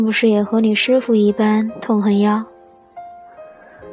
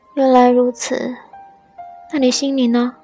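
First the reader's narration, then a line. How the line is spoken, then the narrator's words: Weak, hopeless sigh. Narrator (Chinese): 严淡叹了口气，觉得自己已经没有生还的希望，有气无力地说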